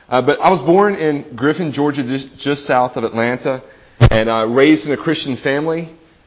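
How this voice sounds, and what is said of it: Southern US Georgia accent. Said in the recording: “I was born and raised in Griffin, Georgia. That's just south of Atlanta... when I came up here, people told me I have an accent... apparently I have an accent”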